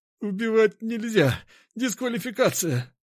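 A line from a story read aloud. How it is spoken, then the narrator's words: Strained wheeze, pinned down. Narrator (Russian): с трудом прохрипел он, ведь я со всей силы прижимал его к полу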